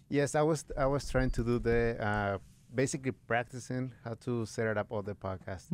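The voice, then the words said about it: Mexican Spanish accent. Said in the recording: “I can't help but notice an accent... I'm from Mexico”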